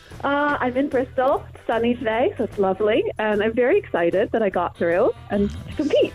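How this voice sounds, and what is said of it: American accent. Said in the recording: “Is that an American accent I can detect?”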